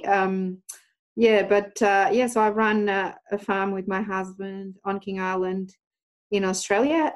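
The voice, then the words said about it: Australian accent mixed with Portuguese. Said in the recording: “an Australian accent mixed with a Portuguese accent.”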